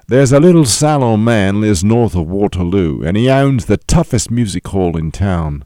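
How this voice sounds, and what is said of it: Put-on British accent. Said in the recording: “he did it with a British accent, so I'm going to do it with a British accent”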